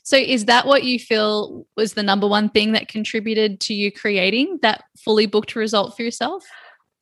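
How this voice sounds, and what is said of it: Hoarse, strained voice. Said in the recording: “losing my voice. Listen to me.”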